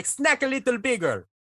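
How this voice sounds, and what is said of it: Put-on Jamaican accent. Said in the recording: “in a Jamaican accent”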